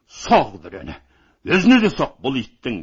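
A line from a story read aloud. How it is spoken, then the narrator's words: Roaring. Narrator (Kazakh): деп ақырып жіберді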